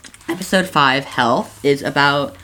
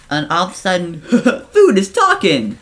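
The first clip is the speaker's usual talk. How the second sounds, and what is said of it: Poor impression of a cartoon character. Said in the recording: “That was a bad impression.”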